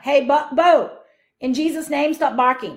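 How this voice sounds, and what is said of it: Yelling. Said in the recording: “now I'm yelling at my dog”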